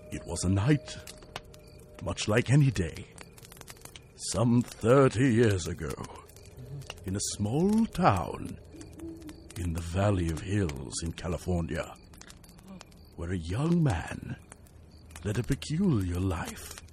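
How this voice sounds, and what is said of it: Spooky storytelling voice. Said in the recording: “use the spooky ... voice ... I'm going to use my spooky voice”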